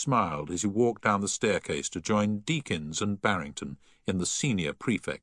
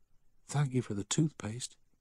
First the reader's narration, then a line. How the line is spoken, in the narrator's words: a voice whisper